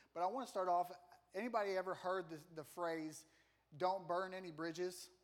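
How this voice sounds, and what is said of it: Slight country accent. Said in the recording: “I kind of have a country accent a little bit. It sounds like I'm saying britches.”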